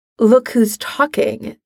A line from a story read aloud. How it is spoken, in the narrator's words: she mutters under her breath